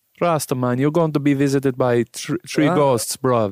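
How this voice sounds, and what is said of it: Put-on Rasta-style accent. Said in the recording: “I wouldn't do the accent... You sound like Nico out of GTA.”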